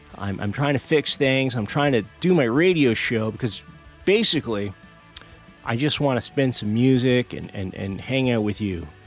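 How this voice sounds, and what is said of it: Sick voice from a cold. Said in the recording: “you could tell by my voice that I still have that cold”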